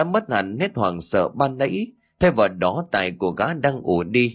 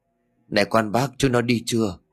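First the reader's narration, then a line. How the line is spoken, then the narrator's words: Trembling question. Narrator (Vietnamese): Quý run rẩy hỏi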